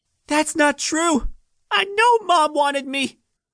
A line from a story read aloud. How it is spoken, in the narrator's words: Lynn cried